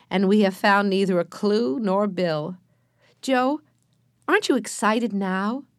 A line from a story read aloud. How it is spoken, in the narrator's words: Alice said, laughing